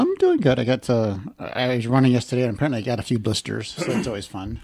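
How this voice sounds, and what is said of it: Usual voice. Nothing is said of it.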